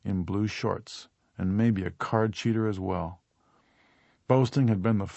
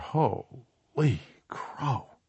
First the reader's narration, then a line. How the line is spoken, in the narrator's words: Sullyjohn mutter